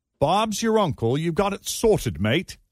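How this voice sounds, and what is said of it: Bad attempt at British accent. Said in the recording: “here are a few lines to try with a British accent ... It's so bad.”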